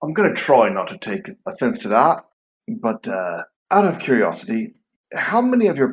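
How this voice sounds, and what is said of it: Usual voice. Nothing is said of it.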